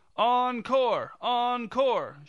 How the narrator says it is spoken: shouted the director's husband

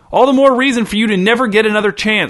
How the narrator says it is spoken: shouted Muriel

